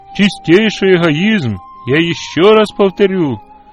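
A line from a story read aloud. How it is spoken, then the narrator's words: Loud, meant to be overheard. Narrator (Russian): сказал он так громко, чтобы услышала госпожа Джонс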